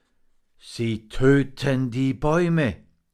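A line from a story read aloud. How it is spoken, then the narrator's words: Groaning raven. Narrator (German): stöhnte der Rabe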